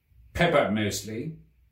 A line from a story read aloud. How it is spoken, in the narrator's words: said the cook